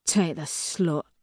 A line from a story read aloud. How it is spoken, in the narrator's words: he mutters